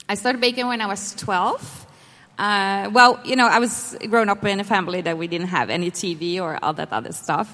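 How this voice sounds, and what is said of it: Speaks with a noticeable accent. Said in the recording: “so they can get used to your accent ... I have an accent? ... Yeah.”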